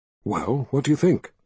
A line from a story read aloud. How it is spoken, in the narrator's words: whispered